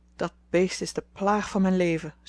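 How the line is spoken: Sighing. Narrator (Dutch): zuchtte ze

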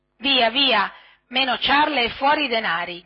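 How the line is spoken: Two brigands shouting threateningly. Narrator (Italian): gridavano minacciosamente i due briganti

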